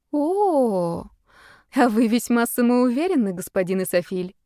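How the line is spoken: Mocking teasing drawl. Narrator (Russian): насмешливо протянула, подтрунивая над мужчиной

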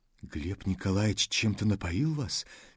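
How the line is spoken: Quiet confidential question. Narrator (Russian): тихо и доверительно спросил Лешуков

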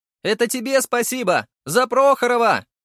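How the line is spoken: Joyful shout. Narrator (Russian): прокричал Сергей невероятно счастливым голосом

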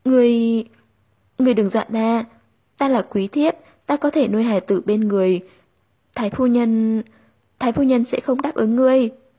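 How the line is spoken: Stammering. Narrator (Vietnamese): Nàng lắp bắp nói

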